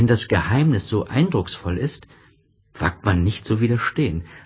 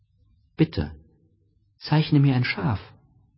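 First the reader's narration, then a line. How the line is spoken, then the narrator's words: Gentle, earnest repetition. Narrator (German): wiederholte es ganz sanft, wie eine sehr ernsthafte Sache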